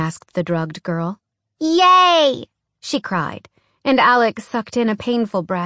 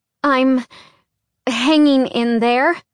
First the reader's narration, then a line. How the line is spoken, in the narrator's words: she answered in a strained voice